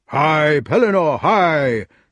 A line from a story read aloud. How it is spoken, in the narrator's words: shouted Sir Grummor